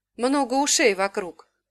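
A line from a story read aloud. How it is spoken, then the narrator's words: Grumbled, displeased. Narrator (Russian): буркнул блондин, недовольный тем, что сестра его переспорила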